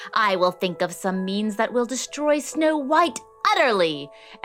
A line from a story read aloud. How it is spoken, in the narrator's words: she screeched